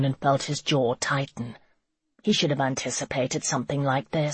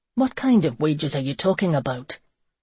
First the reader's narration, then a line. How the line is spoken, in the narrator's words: Seamus grunted